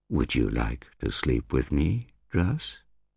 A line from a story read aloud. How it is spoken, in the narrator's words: she asked sweetly